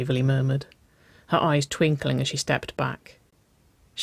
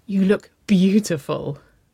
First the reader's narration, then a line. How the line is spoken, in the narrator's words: chuckled